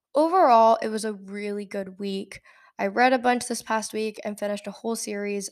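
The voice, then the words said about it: Scratchy voice from a cold. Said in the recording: “I also woke up with a cold and I'm slowly getting over that, so that's why my voice is a bit scratchy”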